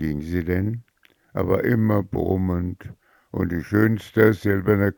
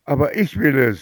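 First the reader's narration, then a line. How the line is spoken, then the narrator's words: Mother screaming. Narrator (German): schrie die Mutter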